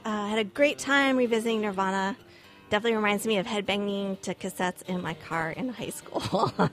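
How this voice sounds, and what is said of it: Hoarse, fading voice. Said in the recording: “I keep losing my voice.”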